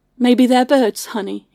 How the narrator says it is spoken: said calmly

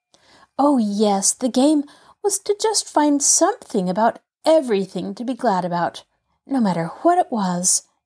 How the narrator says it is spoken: rejoined Pollyanna earnestly

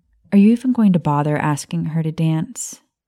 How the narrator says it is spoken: Maya asked Snape

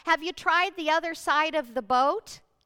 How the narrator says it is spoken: this stranger on the shore shouts out

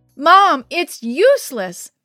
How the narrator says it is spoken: Manuel called out over the noise of the deluge

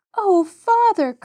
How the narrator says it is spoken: cried Mary

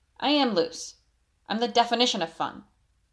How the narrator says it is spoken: he grumbled with a scowl

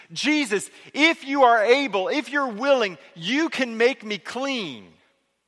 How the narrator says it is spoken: this man, this leper, sees Jesus in the distance and he shouts to Jesus

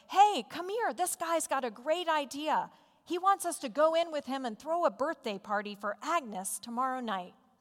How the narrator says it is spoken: Calling his wife in the back room, he shouted

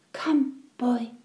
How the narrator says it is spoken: she whispered

